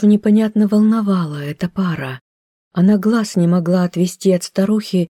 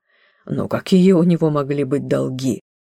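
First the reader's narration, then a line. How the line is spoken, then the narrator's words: Laughing. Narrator (Russian): засмеялся Брюнето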